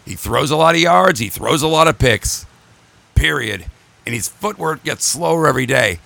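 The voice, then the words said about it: Strained, hoarse voice. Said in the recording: “I'm losing my voice already”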